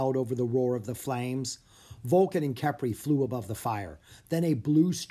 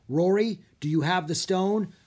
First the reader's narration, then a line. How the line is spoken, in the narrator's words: Griffith called out